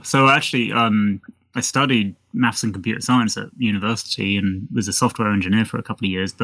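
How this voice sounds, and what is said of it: British accent. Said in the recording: “People hearing your accent will realize that you come from the same part of the world as I do, from the UK.”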